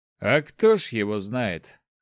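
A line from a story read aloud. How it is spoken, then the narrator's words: Snort. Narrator (Russian): хмыкнул староста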